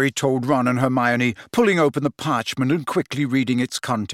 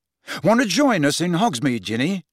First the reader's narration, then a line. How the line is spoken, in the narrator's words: asked